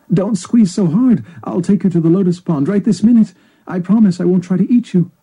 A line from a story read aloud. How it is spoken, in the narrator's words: Seized by sharp pain, the heron cried out